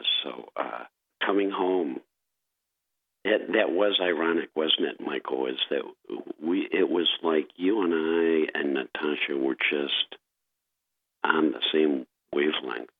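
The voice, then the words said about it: Hoarse, strange-sounding voice. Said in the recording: “I have a very strange voice today ... I've got my radio voice ready. I have a little laryngitis”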